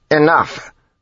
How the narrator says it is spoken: Jastis snapped

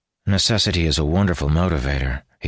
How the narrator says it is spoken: he said in a dry tone

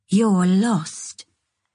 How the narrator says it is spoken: she'd said in a calm, cool voice

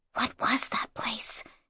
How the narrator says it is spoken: she whispered

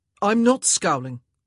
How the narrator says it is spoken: Anthony snapped

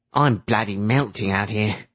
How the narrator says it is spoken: Cap grumbled

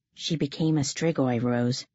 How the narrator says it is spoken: one said gravely

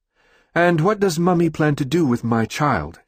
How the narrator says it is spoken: she asks

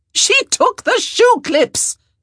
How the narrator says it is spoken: Araminta shrieked

